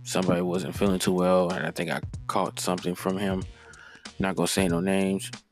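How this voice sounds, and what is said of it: Slightly raspy voice. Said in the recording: “part of my voice seems kind of a little raspy ... my throat has been bothering me”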